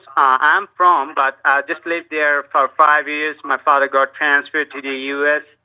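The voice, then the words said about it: Spanish-accented English. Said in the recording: “You have a beautiful accent.”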